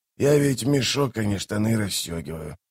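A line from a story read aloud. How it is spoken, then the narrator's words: Mutter. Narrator (Russian): пробормотал торговец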